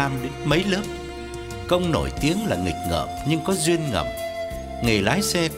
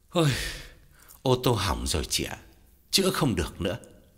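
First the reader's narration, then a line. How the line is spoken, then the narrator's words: Heavy sigh. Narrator (Vietnamese): Gã thở dài thườn thượt, bảo Lam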